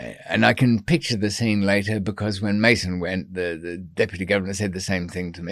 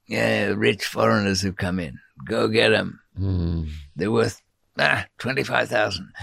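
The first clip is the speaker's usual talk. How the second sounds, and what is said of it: Put-on Mexican accent. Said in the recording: “I'm using a Mexican accent for that”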